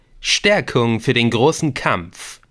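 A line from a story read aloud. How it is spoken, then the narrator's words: Plain. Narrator (German): sagte er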